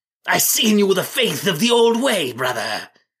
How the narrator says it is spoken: the man said in a voice strained and scratched from much yelling

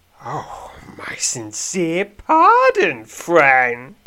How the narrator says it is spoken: says mockingly

